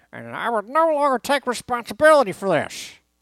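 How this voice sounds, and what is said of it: Imitates another person's voice, poorly. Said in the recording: “I got to get into my Lou Piniella voice ... That was a terrible impression. ... That was more like Jack Harris.”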